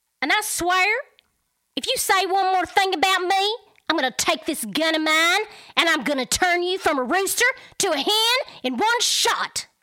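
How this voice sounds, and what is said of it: Put-on Southern country accent. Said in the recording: “What was your accent for um ... So that was just another Texas country, not Texas, I guess country, whatever mix.”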